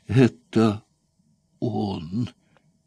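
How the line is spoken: Trembling voice. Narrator (Russian): повторил боцман Катрам дрожащим голосом

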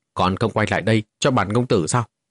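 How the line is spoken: Loud shout. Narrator (Vietnamese): Vô Ngân công tử quát lớn một tiếng

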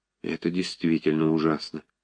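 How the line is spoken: Quiet. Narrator (Russian): тихо произнес Щевинский

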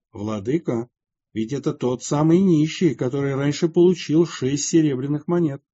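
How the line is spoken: Quiet remark. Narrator (Russian): Слуга же тихо заметил патриарху

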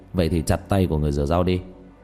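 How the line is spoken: Cold laugh. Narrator (Vietnamese): Diệp Thiếu Dương lạnh lùng cười

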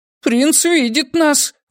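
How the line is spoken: Aunt exclaiming. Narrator (Russian): воскликнула тетушка Дорода

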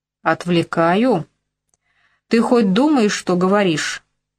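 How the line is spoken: Furious female growl. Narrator (Russian): взбешенно зарычала моя тюремщица

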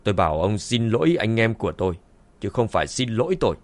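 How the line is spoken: Cold. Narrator (Vietnamese): Dương Chấn lạnh lùng nói

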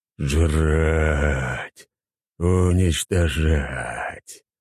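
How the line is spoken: Monster growling and howling. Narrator (Russian): Монстр рычал, выл

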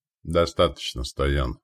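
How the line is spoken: Sighing. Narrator (Russian): вздохнул Радагост

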